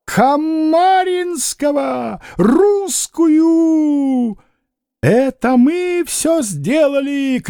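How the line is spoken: Shouted. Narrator (Russian): кричал Яков Тарасович

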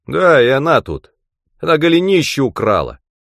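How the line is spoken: Child shouting. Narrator (Russian): крикнул мальчик

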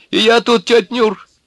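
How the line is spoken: Giggling. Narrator (Russian): хихикнул сухонький

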